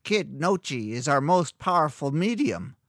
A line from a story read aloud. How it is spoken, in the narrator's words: the old woman sneered